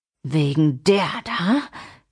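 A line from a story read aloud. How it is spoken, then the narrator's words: Man's hiss. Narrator (German): zischte der Mann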